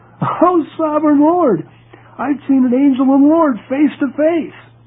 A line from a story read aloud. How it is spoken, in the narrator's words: When Gideon realized that it was an angel of the Lord, he exclaimed